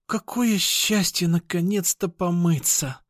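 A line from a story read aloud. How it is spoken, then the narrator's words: Moaning with relief. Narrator (Russian): простонала Кошкина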